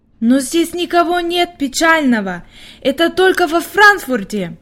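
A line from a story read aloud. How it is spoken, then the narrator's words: Exclaiming. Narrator (Russian): воскликнула Хайди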